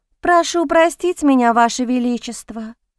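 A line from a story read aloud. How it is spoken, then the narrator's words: Beautiful voice. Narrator (Russian): произнесла она красивым голосом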